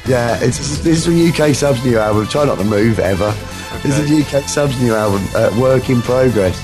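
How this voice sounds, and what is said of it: Hoarse, fading voice. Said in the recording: “You can tell my voice is going, can't you?”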